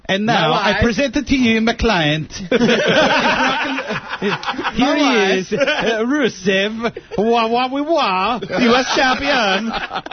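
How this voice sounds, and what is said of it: Borat-like Eastern European accent. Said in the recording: “What was that accent? ... He was falling in and out of it, too. ... Like, yeah, honest to God, Borat.”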